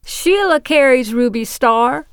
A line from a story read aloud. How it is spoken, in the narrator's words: I called out, always happy to shill for Thimble Pleasures